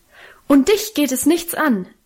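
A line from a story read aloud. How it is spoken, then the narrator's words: Beside herself shouting. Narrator (German): rief sie außer sich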